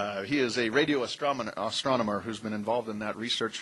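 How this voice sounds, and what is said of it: Usual voice. Nothing is said of it.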